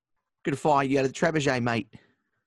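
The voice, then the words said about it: Put-on English cockney accent. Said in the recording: “someone with like an English accent to say it ... That sound a little cockney ... A little cockney. Bit.”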